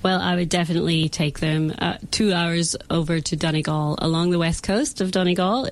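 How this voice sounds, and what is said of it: Irish accent. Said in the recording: “wanting to hear more of your Irish accent.”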